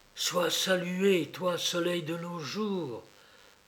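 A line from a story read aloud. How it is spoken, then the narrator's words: Murmuring. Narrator (French): murmura de nouveau la baronne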